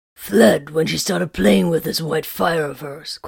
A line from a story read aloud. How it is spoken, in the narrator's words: Corvin grumbled